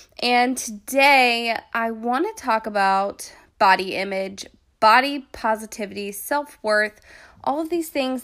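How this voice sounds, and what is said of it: Sick-sounding voice. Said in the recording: “Excuse my voice today. I've been sick for the past few days”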